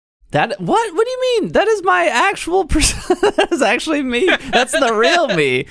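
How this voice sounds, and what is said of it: Stereotypical nerd character voice. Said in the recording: “your offensive nerd stereotype when you put your glasses on ... The voice I'm doing right now is the persona ... my nerd voice ... it's offensive to nerds everywhere”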